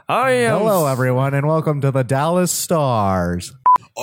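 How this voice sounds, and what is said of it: Low semi-announcer voice. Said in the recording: “Is that really how low you're gonna be talking? ... This is my semi-announcer voice.”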